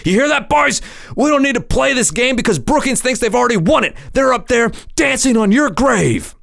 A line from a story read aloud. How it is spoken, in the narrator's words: He started yelling